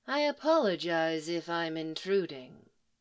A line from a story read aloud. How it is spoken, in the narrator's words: Nuha said, her voice deep and smooth